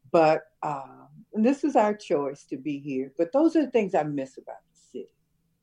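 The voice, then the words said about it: School teacher voice. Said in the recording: “Did I use my school teacher voice? ... You did use your school teacher voice.”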